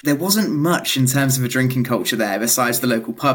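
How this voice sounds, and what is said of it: British accent. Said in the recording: “Anyone listening will be able to tell by my accent that I'm British.”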